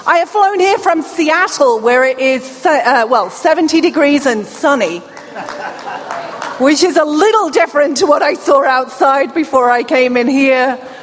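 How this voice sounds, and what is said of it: British accent. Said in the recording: “accent. That is a British accent. ... I am not Australian.”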